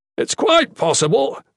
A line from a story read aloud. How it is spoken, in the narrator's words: the Shadan shouted over the noise